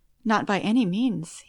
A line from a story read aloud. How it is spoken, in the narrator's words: he replied